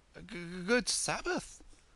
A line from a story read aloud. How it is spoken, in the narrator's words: stammered Yankele